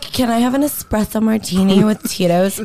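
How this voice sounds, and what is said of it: Valley Girl accent, high voice. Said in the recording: “she goes from throaty to ... she can go all the way up to Kardashian ... I get that Valley Girl accent when I want to.”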